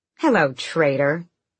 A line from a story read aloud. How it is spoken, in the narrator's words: Aelin purred right back